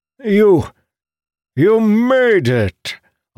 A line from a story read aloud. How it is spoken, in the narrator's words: Arinil exclaimed